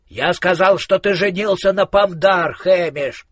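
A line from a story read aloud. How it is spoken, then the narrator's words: Shouted. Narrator (Russian): крикнул Коэн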